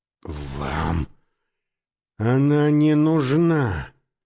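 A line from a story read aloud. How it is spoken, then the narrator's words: Hissing. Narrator (Russian): прошипел он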